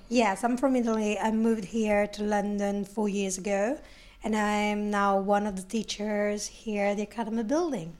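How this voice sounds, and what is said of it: Italian accent. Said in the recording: “we can tell from your accent you're from Italy originally.”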